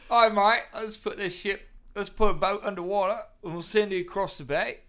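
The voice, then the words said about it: Put-on British accent. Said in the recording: “Nice British accent. ... I'm usually pretty good at those.”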